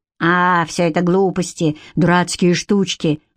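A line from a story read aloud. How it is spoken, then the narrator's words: Dismissive snort. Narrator (Russian): хмыкнул Седрик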